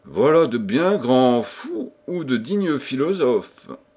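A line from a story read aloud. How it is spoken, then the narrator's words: Grumbling. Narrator (French): grommela le chevalier de Pardaillan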